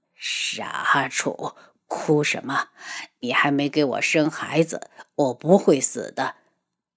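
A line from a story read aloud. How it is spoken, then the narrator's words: Hoarse voice. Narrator (Chinese): 轩辕志沙哑着嗓音道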